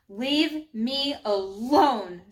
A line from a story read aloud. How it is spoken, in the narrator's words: growled